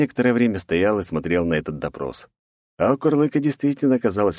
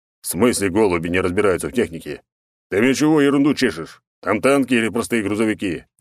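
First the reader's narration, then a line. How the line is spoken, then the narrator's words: Angry deep old man. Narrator (Russian): сердито пробасил старик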